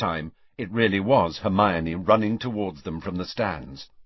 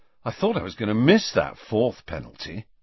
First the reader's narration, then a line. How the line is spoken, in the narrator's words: Ron was saying happily